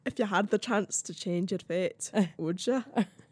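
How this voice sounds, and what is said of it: Put-on Scottish accent. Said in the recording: “Your Scottish accent is so good ... It's not even a good Scottish accent.”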